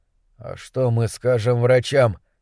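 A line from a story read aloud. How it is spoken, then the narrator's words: Weakening voice. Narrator (Russian): спросил Кэл слабеющим голосом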